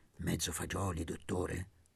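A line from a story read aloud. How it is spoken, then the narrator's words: Very quiet voice. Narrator (Italian): a bassissima voce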